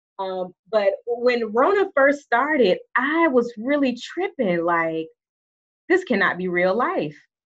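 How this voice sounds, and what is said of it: Southern US country accent. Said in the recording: “I am from Alabama ... my country accent is going to, like, leap out”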